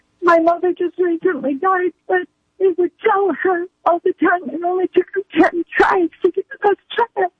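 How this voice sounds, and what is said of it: Tearful, voice breaking up. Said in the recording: “I didn't need to get emotional... she broke up in tears over her mom”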